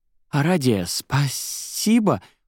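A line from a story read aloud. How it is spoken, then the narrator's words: Happy, barely stuttering. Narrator (Russian): Он почти не заикался и так и светился от счастья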